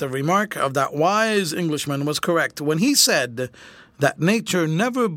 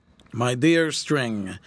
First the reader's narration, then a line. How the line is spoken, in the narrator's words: said Grant solemnly